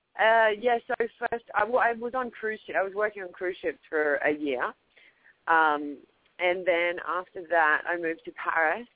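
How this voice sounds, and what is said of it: Australian accent. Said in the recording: “I left mm-hmm. Australia almost 7 years ago now. So even mm-hmm. though I still have my accent”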